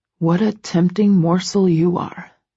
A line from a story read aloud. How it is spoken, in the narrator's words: he mutters